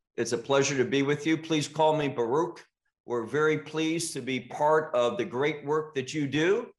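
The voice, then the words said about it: American accent. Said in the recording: “many of our listeners will notice your American accent”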